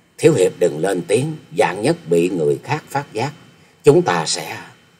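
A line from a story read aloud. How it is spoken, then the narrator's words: Hushed girl's voice. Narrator (Vietnamese): Thiếu nữ khẽ giọng nói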